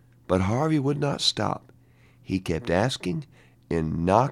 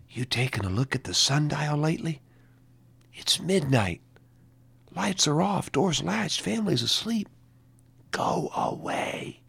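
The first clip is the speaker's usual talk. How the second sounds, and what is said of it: Faint whisper. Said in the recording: “a faint whisper”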